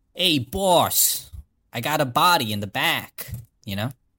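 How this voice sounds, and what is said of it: New Jersey Italian mobster accent. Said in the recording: “Do your Italian accent ... Was it Italian mobster or Italian accent? ... It's New Jersey Italian is what we were all doing.”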